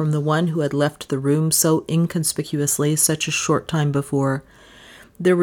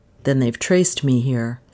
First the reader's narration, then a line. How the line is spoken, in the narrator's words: he said in a dejected voice